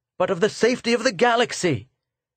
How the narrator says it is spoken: cried Arvidin

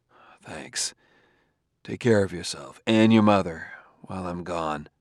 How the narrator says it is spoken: muttered

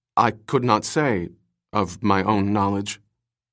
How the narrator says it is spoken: faltered

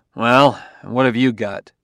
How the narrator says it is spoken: Bailey asked gruffly

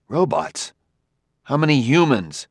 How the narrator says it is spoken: He cried

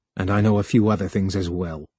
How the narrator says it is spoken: He added grimly

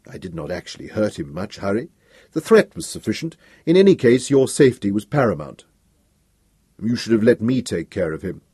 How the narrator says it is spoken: Dors said coolly

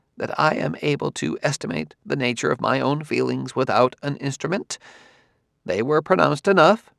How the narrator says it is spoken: said the Solarian stiffly

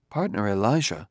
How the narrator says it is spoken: said Daniil softly

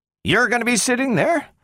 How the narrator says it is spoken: exclaimed Bogert

